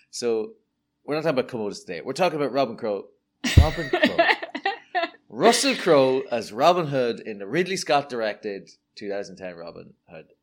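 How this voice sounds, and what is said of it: Irish accent. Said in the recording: “I've got a stupid Irish accent”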